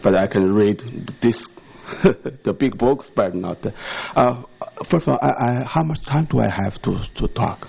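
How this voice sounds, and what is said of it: Non-native English accent. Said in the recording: “excuse my English ... my accent and our English is probably still have a difficulty sometimes”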